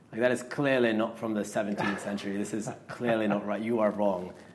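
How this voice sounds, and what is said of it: Put-on accent. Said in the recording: “You're convincing me with that accent. ... It's not bad, yeah?”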